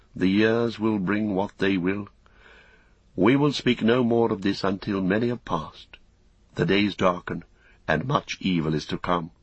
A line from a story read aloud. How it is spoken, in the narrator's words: He sighed, and after a while, looking gravely upon the young man, he said again